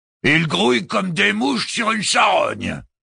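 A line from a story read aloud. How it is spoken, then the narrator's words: Growled. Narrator (French): gronda Malthus Akhtar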